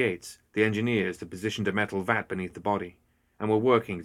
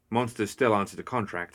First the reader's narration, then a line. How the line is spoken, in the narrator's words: Hannah said